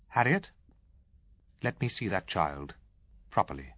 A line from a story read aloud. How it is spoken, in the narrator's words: My mother said coldly, forcibly